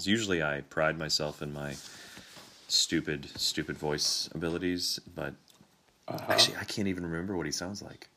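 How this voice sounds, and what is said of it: Congested voice from a cold. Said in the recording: “I have quite a cold, as you can hear.”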